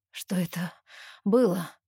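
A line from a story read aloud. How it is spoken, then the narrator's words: Hoarse question. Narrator (Russian): хрипло спрашивает он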